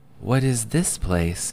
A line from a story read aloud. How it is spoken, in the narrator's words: Harried breathed on the other side